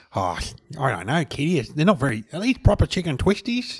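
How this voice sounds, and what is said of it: Slightly nasal imitation of another person. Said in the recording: “That's a good impression. ... he's got a very mild sort of. But he's a bit nasal.”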